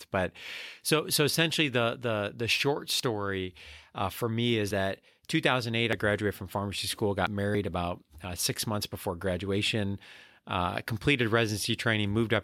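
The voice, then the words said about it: Excited, speeding-up speech. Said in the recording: “you're probably going to hear that in my voice as I get excited and talk faster”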